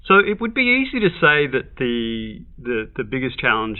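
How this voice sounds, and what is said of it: Australian accent. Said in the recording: “your accent, obviously, you're from Australia.”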